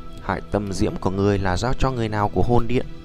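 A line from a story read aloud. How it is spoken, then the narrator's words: Cold shout. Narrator (Vietnamese): Tiêu Viêm lạnh giọng quát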